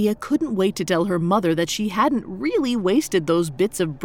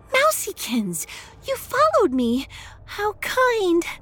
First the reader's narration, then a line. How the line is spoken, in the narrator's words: She gasped